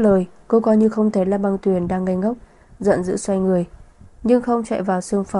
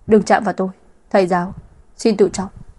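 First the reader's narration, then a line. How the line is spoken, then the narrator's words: Cold. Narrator (Vietnamese): Vân Sở lạnh lùng nói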